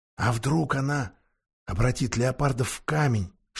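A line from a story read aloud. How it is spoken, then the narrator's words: Whispered. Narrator (Russian): шепнула Люси Питеру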